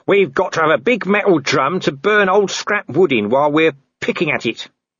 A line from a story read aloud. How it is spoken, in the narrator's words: said Nobby firmly